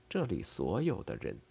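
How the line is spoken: Thoughtful mutter. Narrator (Chinese): 西蒙思考着，嘀咕起来

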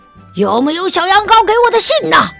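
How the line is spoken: Angry roar. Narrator (Chinese): 他大吼着，因为发现小羊羔没来赴约，让他很恼火

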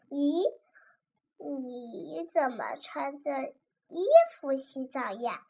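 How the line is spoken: Quiet, soft. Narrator (Chinese): 尤些娜小声的

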